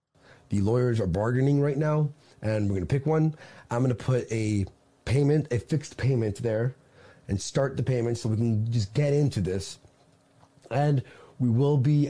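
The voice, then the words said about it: Hard-to-place accent. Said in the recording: “accent confuses me.”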